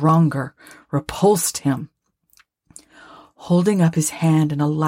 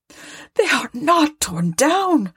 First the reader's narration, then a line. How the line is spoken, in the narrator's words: cried Scrooge